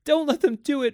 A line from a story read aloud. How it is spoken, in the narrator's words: wailed at the ceiling as if he was talking to the house, the nursery